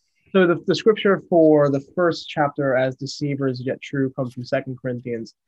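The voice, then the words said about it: Transatlantic accent. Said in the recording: “I'm going to call it transatlantic... there used to be a transatlantic accent. I think that's what it is.”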